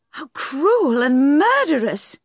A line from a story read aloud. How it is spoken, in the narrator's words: she cried